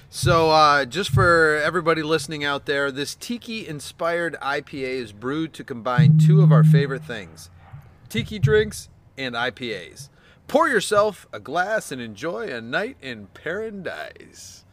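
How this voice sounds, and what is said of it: Announcer-style radio voice. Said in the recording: “That was my best radio voice ... It was a very good radio voice.”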